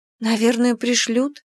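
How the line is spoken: Uncertain. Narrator (Russian): неуверенно ответила я

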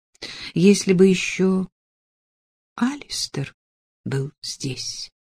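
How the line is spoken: Quiet. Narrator (Russian): тихо сказала Эллен

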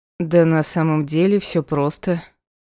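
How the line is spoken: Snorting, man. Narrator (Russian): хмыкнул мужчина

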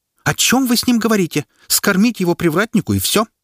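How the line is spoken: Woman's exclamation. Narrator (Russian): воскликнула пышная брюнетка

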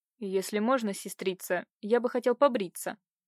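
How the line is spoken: Quiet. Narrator (Russian): сказал тихо

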